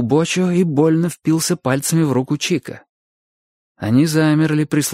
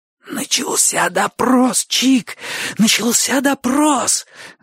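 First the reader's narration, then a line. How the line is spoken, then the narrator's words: Hoarse wheeze. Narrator (Russian): Засипел Бочо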